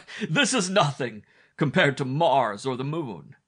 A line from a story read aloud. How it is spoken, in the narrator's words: he cried